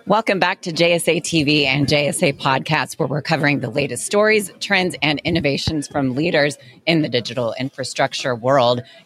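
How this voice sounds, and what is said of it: Strained, hoarse voice giving out. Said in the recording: “My voice is just now deciding to give out here.”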